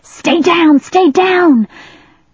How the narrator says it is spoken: Afraid that Ariel might look up, China shouted

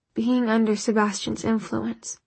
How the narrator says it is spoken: he said hoarsely

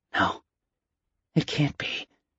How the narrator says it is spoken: she whispered to herself

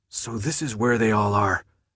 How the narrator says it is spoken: Minho breathed

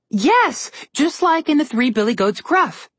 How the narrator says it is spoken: Alex said happily

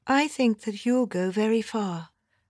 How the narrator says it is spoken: I said dreamily

